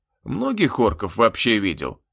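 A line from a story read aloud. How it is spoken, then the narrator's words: Displeased grumble. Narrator (Russian): недовольно проворчал я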